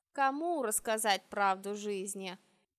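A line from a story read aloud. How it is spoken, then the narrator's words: Lazy question. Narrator (Russian): Динар попытался сфокусировать взгляд на мне и лениво поинтересовался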